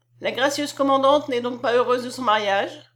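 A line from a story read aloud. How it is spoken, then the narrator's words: Plain. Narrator (French): dit-elle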